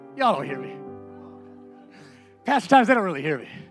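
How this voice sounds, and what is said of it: Hoarse, hollering preaching voice. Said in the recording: “I'm hooping and hollering and losing my voice”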